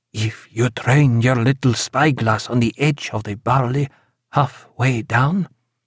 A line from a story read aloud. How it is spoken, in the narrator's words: said Eduardo, in little more than a whisper